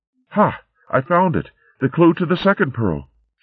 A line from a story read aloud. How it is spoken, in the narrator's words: she cried